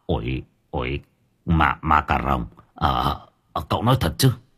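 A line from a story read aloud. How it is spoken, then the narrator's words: Stammering. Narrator (Vietnamese): Ông Nghị lắp bắp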